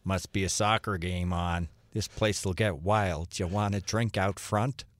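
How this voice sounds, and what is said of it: Put-on older Brooklyn men's accent. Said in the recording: “This is the accent that two men in their 60s in Brooklyn spoke with... This is what the best you can do... That's how they talked... They stumbled in from Milwaukee?”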